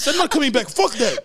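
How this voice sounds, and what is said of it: Ricky Rubio impression, Spanish accent. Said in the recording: “The fucking accent is killing me.”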